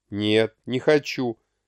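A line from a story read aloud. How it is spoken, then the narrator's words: Calm refusal. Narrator (Russian): спокойно отказался Булеев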